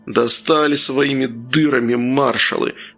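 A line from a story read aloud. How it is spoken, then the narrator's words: Exclaiming. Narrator (Russian): воскликнул Еремей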